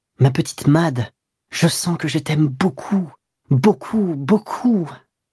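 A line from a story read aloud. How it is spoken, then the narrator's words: Contented smiling murmur. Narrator (French): Elle souriait de son sourire confiant et satisfait, et elle murmura en lui rendant ses baisers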